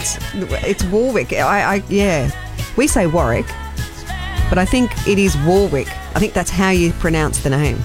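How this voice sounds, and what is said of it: Australian accent. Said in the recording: “our Australian sort of accent”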